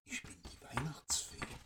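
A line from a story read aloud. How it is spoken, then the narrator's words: Whispering. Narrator (German): wisperte sie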